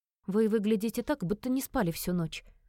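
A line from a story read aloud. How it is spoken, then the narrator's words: Gentle scolding. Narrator (Russian): мягко пожурила я лорда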